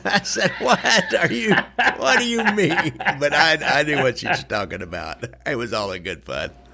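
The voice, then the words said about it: Northwest Missouri nasal twang. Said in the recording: “my hillbilly accent here, my Northwest Missouri nasal twang.”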